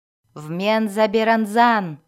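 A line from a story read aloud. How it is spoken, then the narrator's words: Shout. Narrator (Russian): крикнула жрица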